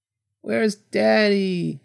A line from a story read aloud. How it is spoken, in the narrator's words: he whined